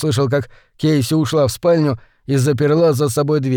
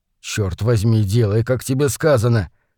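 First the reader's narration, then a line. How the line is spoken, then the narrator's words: Calm, through clenched teeth. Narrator (Russian): невозмутимо процедил Холман сквозь зубы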